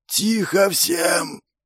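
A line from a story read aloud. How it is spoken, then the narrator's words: Loud voice breaking into wheeze. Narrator (Russian): перекрыл спорщиков новый голос, сорвавшись под конец на сиплый хрип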